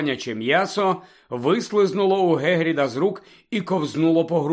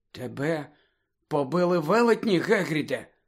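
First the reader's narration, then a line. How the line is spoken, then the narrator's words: Whispered. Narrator (Ukrainian): прошепотіла Герміона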